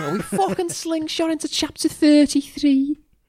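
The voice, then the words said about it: Put-on Scouse accent. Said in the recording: “Can you say that in a Scouse accent?”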